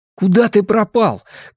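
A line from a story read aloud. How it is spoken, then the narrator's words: Shout. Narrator (Russian): крикнул он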